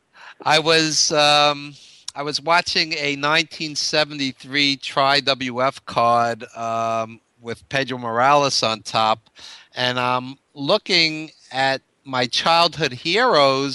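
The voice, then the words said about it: New York accent. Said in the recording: “I'm from New York, obviously, as you can tell by the accent.”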